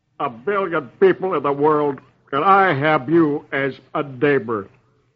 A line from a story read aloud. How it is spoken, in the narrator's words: Herb growls